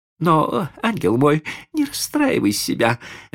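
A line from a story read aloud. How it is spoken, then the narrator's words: Babbling, lady. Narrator (Russian): залепетала дама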